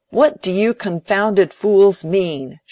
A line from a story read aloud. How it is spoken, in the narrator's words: shouted Fred